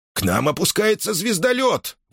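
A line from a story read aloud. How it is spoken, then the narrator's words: Exclaimed. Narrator (Russian): воскликнул он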